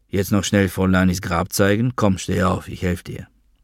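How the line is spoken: Said quietly. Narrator (German): sagte Gary leise

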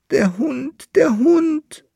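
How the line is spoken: Wailing. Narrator (German): jammerte der Bärlandfahrer

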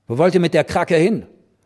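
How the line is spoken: Called out. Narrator (German): rief

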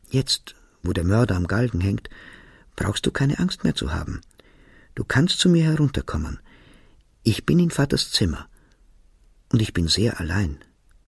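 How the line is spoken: Whispered. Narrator (German): flüsterte

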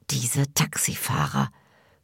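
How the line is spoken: Strained whisper. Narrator (German): flüstert Sevda gepresst

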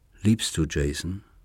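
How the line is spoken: Plain. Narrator (German): fragte

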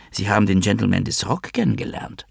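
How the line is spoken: Whisper. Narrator (German): flüsterte sie

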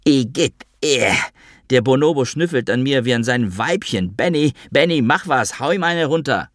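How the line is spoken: Screaming even louder. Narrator (German): schrie noch lauter

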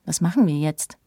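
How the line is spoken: Plain question. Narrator (German): fragt Philipp

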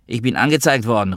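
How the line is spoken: Calling from bathroom. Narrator (German): rief ich aus dem Bad

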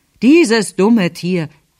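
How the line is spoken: Uncle calling out. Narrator (German): rief mein Onkel

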